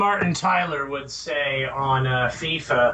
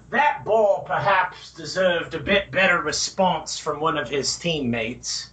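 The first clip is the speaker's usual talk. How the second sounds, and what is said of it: Poor imitation of a commentator's voice. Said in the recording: “That was a terrible accent”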